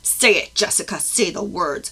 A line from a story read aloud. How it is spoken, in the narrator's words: Alpha roared